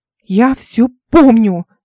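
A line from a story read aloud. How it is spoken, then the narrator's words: Shouted. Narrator (Russian): закричала Ольга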